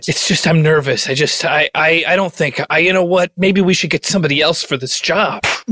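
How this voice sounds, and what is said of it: New York Queens accent. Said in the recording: “where's your accent from? It sounds unique. ... I grew up in like the Queens area of New York. ... that's Elmhurst”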